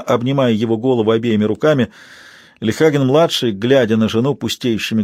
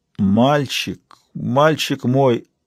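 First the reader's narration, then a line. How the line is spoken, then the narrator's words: Quavering tearful voice. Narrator (Russian): выговорил он дребезжащим голосом, и его запавшие глаза наполнились слезами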